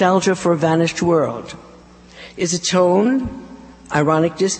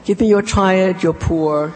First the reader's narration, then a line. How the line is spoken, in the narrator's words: she says